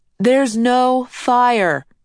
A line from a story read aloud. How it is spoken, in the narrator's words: Adrian said loudly